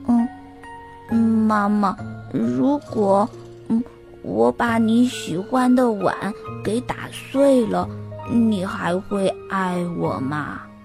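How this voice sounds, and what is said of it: Quiet, hesitant small voice. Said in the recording (Chinese): “小声地说”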